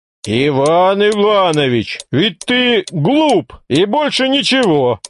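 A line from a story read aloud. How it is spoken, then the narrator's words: Loud. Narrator (Russian): громко сказал Григорий Григорьевич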